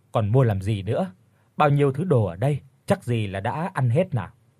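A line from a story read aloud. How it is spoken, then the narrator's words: Loud laughing voice. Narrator (Vietnamese): bác Kiên cười lớn rồi nói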